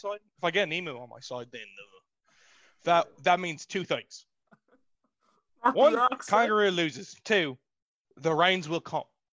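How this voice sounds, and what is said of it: Put-on Australian accent. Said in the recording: “really likes to talk in the Australian accent”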